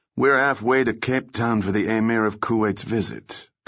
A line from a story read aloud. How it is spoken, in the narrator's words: Cabrillo said so smoothly he half believed it himself